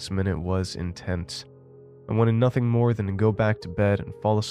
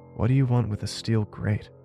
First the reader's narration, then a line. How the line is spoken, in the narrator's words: I whispered in a jittery tone